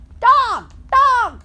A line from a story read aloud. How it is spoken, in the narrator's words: kept screaming